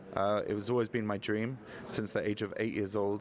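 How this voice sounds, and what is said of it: British accent. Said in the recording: “born and raised in the UK, as the accent may give away, although I'm sure some of the listeners thinking, who's that Australian or South African?”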